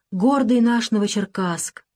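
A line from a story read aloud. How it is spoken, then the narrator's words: Sighing. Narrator (Russian): вздохнул Дронов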